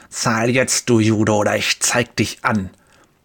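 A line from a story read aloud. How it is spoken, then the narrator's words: Hissed, spitting. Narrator (German): Speichel sprüht, als er zischt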